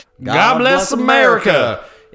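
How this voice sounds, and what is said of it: Put-on Southern accent. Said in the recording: “we both went for the Southern accent again.”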